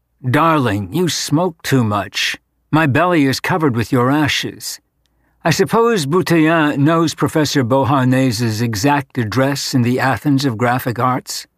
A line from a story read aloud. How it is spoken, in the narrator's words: In an equally casual tone of voice, Vaughn said